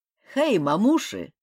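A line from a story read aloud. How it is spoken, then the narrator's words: Loud call. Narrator (Russian): громко позвал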